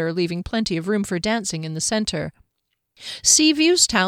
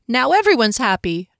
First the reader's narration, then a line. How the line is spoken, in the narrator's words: Fennel exclaimed